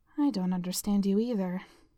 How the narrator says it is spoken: Jessica muttered

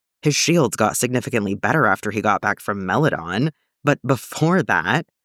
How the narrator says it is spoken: he laughed bitterly

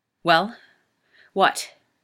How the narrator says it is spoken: snarls

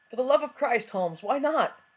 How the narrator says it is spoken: Watson cried, overcome

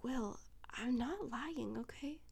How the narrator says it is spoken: He says, his voice soft

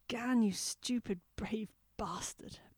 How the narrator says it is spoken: Blake had groaned

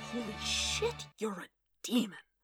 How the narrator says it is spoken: Wade breathed

